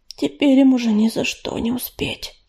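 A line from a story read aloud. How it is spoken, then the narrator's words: Hoarse breathless exhale. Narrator (Russian): хрипло выдохнул за ее спиной Ежевика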